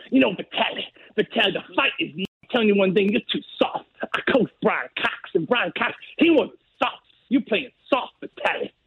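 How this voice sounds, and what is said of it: Imitates another person's voice. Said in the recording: “that was a perfect Bob Shannon imitation ... in your best Bob Shannon voice”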